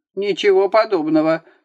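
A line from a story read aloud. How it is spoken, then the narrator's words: Yelling, judge. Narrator (Russian): снова заорал на него судья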